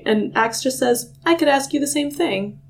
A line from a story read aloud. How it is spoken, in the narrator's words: he replied calmly